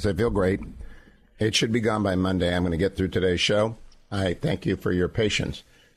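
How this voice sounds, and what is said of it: Hoarse voice from laryngitis. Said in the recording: “my laryngitis has affected my vision. I have laryngitis.”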